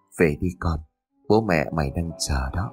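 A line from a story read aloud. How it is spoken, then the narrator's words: Old man's soft whisper. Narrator (Vietnamese): Lão khẽ thì thầm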